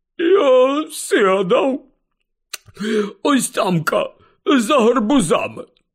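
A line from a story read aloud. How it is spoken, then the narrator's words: Strangled voice. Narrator (Ukrainian): здушеним голосом сказав Гегрід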